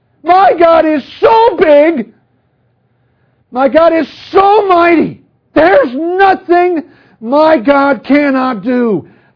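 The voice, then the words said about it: Raised, loud voice. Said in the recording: “I'm really sorry I'm raising my voice.”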